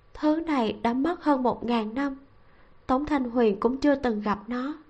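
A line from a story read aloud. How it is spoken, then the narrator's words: Low, sighing voice. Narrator (Vietnamese): thở dài, thấp giọng nói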